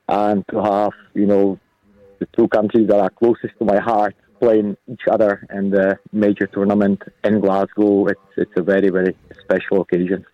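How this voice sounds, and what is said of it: Slight accent coming through. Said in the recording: “there's a little bit of the accent starting to come through”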